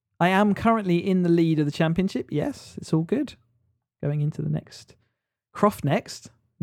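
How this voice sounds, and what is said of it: North Yorkshire accent. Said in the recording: “With my North Yorkshire accent”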